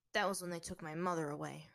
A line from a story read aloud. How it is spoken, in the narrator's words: Haru muttered